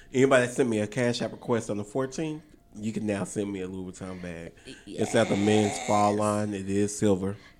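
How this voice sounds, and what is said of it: Unusually deep voice. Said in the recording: “I just love this deep voice that you have right now.”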